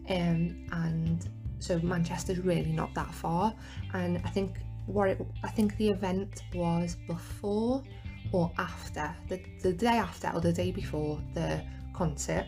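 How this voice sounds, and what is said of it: Liverpool English accent. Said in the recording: “I live in Liverpool, if you couldn't tell from that accent”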